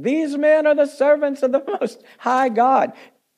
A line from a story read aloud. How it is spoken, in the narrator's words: This girl followed Paul and us and cried out, saying